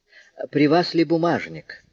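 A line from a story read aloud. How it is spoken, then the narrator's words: Ingratiating question. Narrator (Russian): вкрадчивым голосом спросил Жондрет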